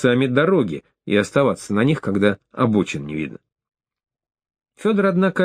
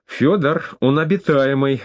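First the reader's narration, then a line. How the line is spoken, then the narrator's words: Exclaimed. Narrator (Russian): воскликнула Даша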